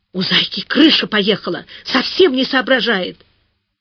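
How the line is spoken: Fervent low whisper. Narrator (Russian): Маруська понизив голос почти до нуля, горячо зашептала

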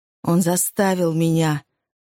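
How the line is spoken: Trembling female voice. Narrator (Russian): дрогнувшим голосом произнесла женщина

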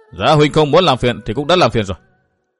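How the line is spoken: Sharp, irritated. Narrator (Vietnamese): Bằng Nương gắt giọng nói

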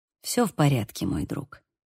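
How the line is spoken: Soft, gentle. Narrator (Russian): мягко произнес Бейл

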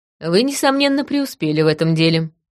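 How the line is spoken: Wry snort. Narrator (Russian): хмыкнула я

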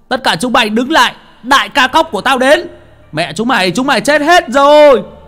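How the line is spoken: Shout. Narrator (Vietnamese): một tiếng hét vang lên

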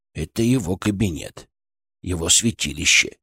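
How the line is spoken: Quiet. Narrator (Russian): тихо сказал Фырк

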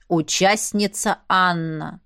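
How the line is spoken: Stern. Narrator (Russian): строго начал распорядитель

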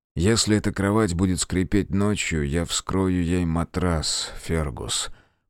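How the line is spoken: Grumbling. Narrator (Russian): проворчал Грейден

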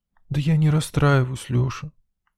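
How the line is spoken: Sad sigh, girl. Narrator (Russian): печально вздохнула девчонка

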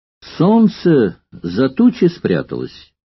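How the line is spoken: Plain. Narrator (Russian): ответил Крикс

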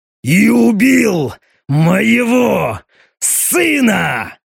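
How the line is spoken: Roaring. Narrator (Russian): Эти слова граф проревел

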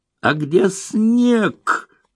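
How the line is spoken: Yelling. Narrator (Russian): завопил режиссер

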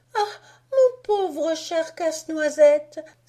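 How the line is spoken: Exclaim. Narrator (French): s'écria Marie

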